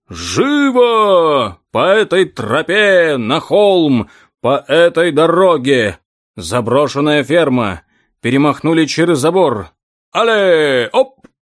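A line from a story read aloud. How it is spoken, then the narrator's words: Furious roaring. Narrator (Russian): Саван де саркофаг взбеленился, разбушевался, взревел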